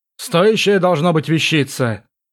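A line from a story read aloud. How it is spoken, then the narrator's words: Hmphed. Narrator (Russian): хмыкнул бородатый Брэк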